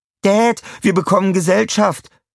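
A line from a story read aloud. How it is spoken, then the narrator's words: Called out. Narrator (German): rief Tina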